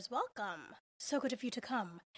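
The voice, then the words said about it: Put-on fictional character voice. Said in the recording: “in my best Patrick Bateman voice.”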